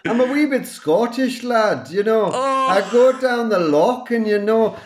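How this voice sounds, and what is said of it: Put-on Scottish accent. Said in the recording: “my best Scottish impression ... I can't do Scottish ... that's really good already”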